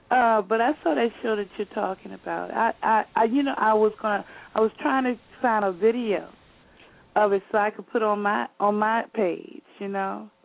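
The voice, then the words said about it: Slightly hoarse voice. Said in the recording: “I'm a little hoarse tonight.”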